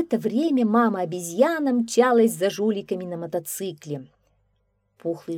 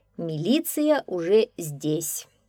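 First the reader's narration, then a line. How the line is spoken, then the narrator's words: Calm. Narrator (Russian): спокойно сказал милиционер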